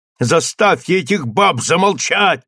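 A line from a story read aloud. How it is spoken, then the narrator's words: Shouted. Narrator (Russian): крикнул Стив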